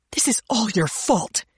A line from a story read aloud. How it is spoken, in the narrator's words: she hissed at me